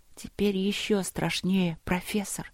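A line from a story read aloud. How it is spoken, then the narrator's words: Whispering. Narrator (Russian): прошептала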